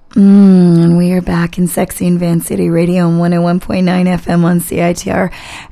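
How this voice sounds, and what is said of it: Husky, raspy voice. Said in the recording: “I just don't sound quite the same because I'm doing my Demi Moore impersonation today because I am getting over being sick”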